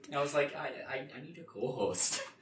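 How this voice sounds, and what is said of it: Exaggerated Midwestern American accent. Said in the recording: “You just got so Midwest there”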